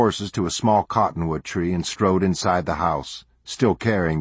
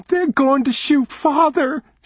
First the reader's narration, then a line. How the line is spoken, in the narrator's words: she gasped